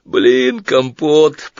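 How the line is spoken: Groaned. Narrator (Russian): по-русски простонал Сварог

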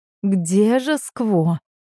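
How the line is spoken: Impatient near-whimper. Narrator (Russian): От нетерпения Мира почти скулила

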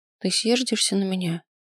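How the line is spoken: Timid question. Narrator (Russian): спросила она, робко

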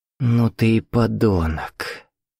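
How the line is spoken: Weary. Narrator (Russian): устало сказала Катя

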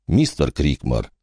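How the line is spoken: Quiet, tall bearded man. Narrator (Russian): тихо произнес более высокий человек с бородой Санта-Клауса с вкраплениями серого цвета, чье имя было Стентон

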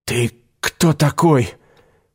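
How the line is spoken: Hoarse rasp. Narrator (Russian): прохрипел Игорь

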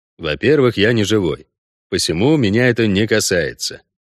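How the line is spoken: Even, flat voice. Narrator (Russian): ровным голосом пояснил Геральт

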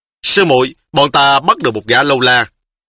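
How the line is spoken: Loud voice. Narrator (Vietnamese): y bèn lớn tiếng nói

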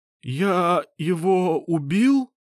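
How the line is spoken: Trembling voice. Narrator (Russian): спросил он дрожащим голосом

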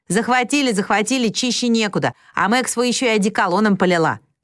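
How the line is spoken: Shout. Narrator (Russian): крикнула Джо

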